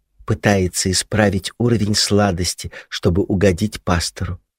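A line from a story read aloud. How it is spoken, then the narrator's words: Whispered guess. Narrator (Russian): предположение Дэви, высказанное шепотом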